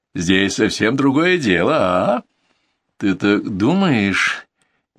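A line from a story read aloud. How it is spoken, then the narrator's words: Uncertain objection. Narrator (Russian): неуверенно возражаю я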